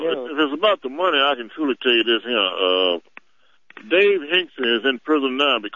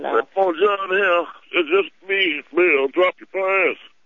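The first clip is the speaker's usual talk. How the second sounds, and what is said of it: Weak imitation of another person's voice. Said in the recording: “another weak Clinton impersonation”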